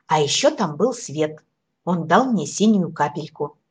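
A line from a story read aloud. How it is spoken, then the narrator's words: Exclaiming. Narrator (Russian): воскликнул Фиолетик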